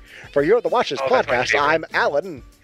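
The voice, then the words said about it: Old-timey radio announcer voice. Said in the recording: “I'm going to make it sound like old-timey radio ... we're all talking like this”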